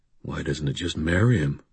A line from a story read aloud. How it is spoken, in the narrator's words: Thomas muttered under his breath